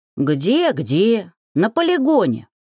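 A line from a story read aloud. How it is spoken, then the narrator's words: Grumbling goblin. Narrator (Russian): проворчал тот самый гоблин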